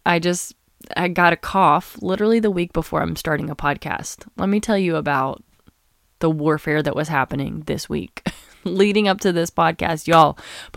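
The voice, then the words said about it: Raspy, sick-sounding voice. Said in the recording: “is this going to be a raspy podcast? The answer is no. I'm just sick.”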